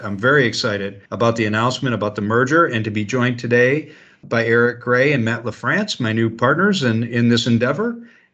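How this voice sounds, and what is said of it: Deep, gravelly radio announcer voice. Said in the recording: “speak in your radio voice. ... I try to get a little deeper, a little more gravelly.”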